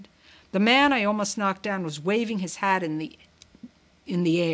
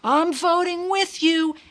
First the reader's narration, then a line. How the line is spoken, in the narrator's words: several other people shouted